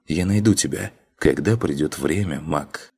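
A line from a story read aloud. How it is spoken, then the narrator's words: Whisper. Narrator (Russian): Прошептала она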